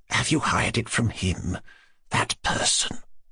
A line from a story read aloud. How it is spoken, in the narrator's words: she added in an undertone